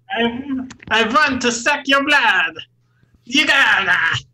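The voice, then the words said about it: Imitated voice, Transylvanian-sounding. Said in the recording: “my Christopher Walken impression ... That was really good ... he just sounds like he's from Transylvania perpetually”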